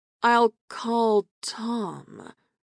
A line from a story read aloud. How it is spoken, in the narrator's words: Aaron replied slowly